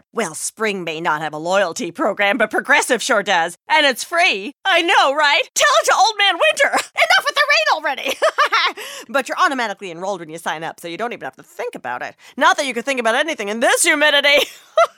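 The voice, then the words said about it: Chatty weather-obsessed neighbor voice. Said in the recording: “my impression of your neighbor who really likes to talk about the weather”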